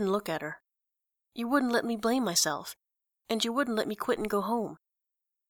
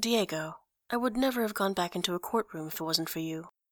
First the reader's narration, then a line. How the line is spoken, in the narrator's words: said quietly